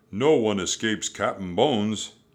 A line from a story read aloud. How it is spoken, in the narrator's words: he roared